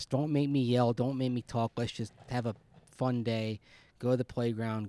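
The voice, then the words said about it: Strained, tired voice starting to go. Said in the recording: “my voice is a little bit, my throat's a little bit sore, and my voice is starting to go”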